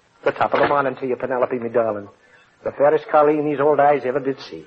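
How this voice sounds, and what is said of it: Corny put-on Irish brogue. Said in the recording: “corny brogue”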